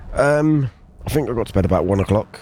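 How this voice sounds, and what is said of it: Hoarse, strained voice. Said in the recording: “I'm losing my voice a bit as well, as you can probably tell.”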